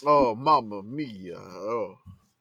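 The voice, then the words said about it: Put-on Italian accent. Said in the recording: “Y'all all in Italian accents.”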